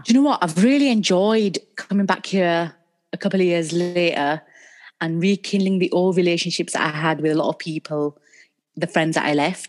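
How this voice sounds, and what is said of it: Northern English accent. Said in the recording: “Having the Northern accent ... where's that accent from? It's a very nice accent to have.”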